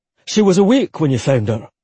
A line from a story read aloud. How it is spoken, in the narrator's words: Rory asked sharply